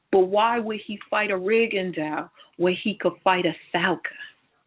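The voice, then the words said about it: Put-on Philly accent. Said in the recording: “my best Philly accent... That was like half Breadman and half Angel Garcia... I had to take the West Coast out of it”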